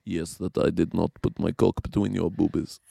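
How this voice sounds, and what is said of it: Imitated Slovakian man's accent. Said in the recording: “I did an impression of the guy ... this like Slovakian gentleman”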